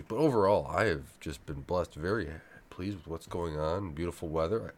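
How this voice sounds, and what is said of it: Slightly off, allergy-affected voice. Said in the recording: “my voice is a little off, my allergies have just been acting up this week”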